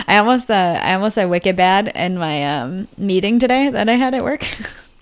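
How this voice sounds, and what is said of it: Heavy New Hampshire accent. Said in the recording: “my little New Hampshire accent is heavy”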